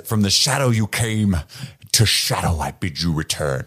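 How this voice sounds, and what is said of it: Imitates another person's voice. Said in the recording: “Doing his best Ian McKellen impersonation. Steve would have done it better.”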